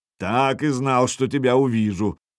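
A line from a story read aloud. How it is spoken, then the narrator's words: Hollow boom from barrel. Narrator (Russian): прогудела из бочки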